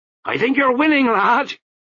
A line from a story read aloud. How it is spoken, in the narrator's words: he shouted to the figure on the podium